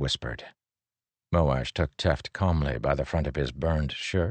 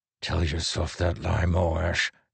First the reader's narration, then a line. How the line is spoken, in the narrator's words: Teft growled